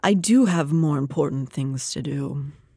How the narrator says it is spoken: purred

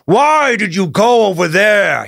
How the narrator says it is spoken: he growled

